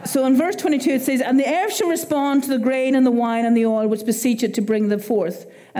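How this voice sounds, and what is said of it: Irish accent. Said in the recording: “it's my Irish accent ... my accent says”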